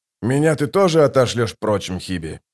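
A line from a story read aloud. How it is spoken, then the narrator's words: Grumbling. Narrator (Russian): проворчал он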